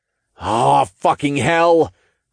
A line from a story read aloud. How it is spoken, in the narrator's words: I growled